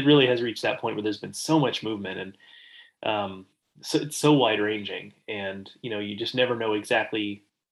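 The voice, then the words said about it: Nasal voice from a cold. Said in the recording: “hear in my voice, I'm sick. Uh, I have a cold ... excuse my nasally voice a little bit”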